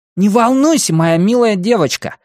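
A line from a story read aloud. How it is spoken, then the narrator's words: Puppy exclaiming. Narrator (Russian): воскликнул щенок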